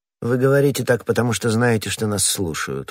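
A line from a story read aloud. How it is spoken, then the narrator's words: Cold remark. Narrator (Russian): холодно заметила миледи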